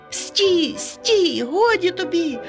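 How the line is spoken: Shouted. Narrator (Ukrainian): закричав Ромчик

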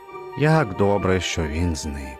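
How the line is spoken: Relieved sigh. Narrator (Ukrainian): полегшено зітхнув

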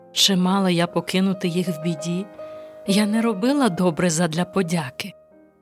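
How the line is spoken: Sad smiling reply. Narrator (Ukrainian): Мати усміхнулась сумно і відповіла

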